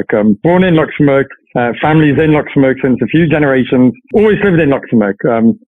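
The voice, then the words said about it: Slight Irish accent in English. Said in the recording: “you have a slight Irish accent when you speak English ... I've picked up a funny accent”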